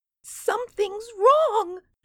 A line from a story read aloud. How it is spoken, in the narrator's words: she wailed